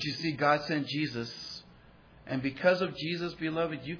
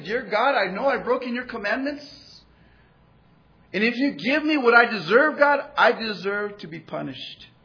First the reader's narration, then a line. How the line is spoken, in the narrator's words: cried out to God and said